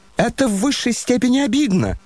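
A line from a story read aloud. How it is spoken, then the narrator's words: Shrieking. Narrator (Russian): завизжал Ипполит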